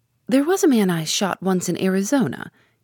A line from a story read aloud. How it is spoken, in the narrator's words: he began cheerfully